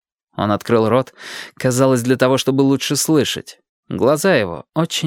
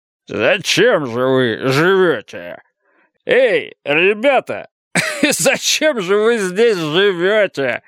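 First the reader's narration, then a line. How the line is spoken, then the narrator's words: Drunken laughter. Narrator (Russian): прибавил он с пьяным хохотом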